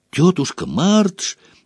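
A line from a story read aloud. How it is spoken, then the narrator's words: Impulsive cry. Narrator (Russian): не подумав, вскрикнул он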